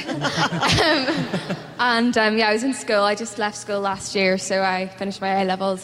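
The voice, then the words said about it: Northern Irish accent. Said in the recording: “set in Northern Ireland, so I got to do my own accent”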